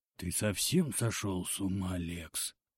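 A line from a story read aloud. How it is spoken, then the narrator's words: Frightened whisper. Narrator (Russian): испуганно прошептал староста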